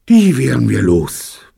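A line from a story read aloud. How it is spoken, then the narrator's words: Relieved sigh. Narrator (German): meinte Robert mit einem Seufzer der Erleichterung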